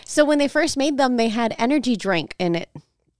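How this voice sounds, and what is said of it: Light country twang, done well. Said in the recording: “You threw a little twang in there. That's pretty good.”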